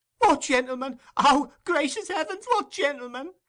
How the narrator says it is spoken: exclaimed Nancy

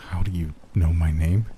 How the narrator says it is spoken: stammered

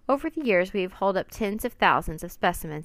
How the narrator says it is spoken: said

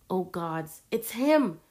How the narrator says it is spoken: Rory gasped

